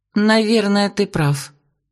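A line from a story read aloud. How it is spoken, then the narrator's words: Uncertain reply. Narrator (Russian): неуверенно ответила Вера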